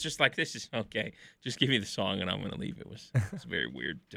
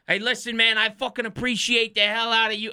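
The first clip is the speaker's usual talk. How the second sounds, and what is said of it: Stereotypical Brooklyn New York accent. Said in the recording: “the most stereotypical Brooklyn, New York accent ever”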